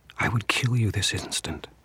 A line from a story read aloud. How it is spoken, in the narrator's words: whispered